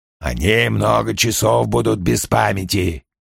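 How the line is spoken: Hoarse fat man. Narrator (Russian): сказал толстяк с хриплым голосом

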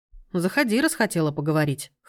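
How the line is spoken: Dry, smirking grunt. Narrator (Russian): хмыкнул Сергей

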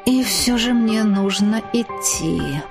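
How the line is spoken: Lazy mutter. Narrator (Russian): пробормотал Артем, лениво шевелясь

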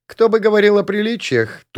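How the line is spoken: Young woman, snorting. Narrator (Russian): тут же фыркнула лежащая на мне молодая женщина

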